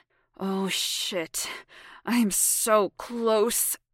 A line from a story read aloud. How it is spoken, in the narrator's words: he growled